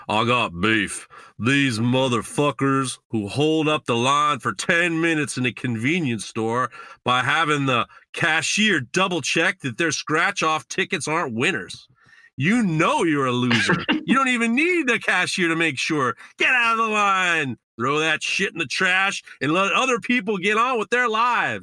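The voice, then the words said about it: Imitates another person's accent. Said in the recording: “You need to do this in Ben's accent”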